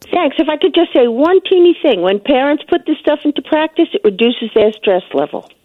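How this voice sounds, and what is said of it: Noticeable accent. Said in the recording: “We love your accent.”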